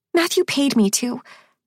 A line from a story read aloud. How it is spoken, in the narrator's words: Polly blurts